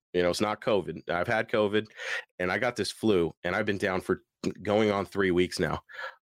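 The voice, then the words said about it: Tattered, rough voice with sore throat. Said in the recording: “I have been sick with the worst flu ... My voice is tattered. I've had a sore throat.”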